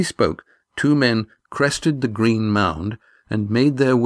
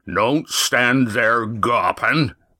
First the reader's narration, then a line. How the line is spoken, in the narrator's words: ordered Roaring Jack, his voice once more a bellow